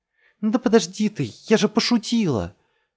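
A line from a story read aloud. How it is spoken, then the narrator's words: Shout. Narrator (Russian): закричала Джесс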